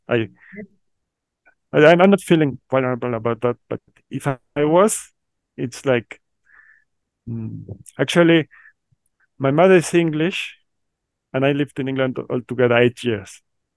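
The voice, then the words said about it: Mexican Chilango-accented English. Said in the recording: “we are Mexicans ... I have a very bad accent, like, according to myself ... it's going to be in English with Chilango accent”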